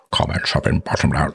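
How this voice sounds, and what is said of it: Imitates another person's voice. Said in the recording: “says Sean Connery ... I'm terrible at imitating people ... Hopefully that imitation works relatively well.”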